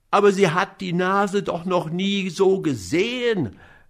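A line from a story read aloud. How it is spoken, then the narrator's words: Increasingly desperate shout. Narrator (German): rief immer verzweifelter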